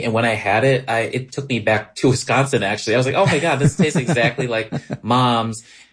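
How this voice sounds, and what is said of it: Wisconsin (Scandinavian-influenced) accent comes out. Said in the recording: “your like Scani accent came out”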